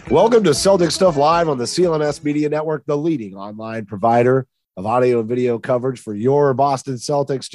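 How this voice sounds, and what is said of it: Congested voice with a cold. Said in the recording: “I'm sick. I've got a cold.”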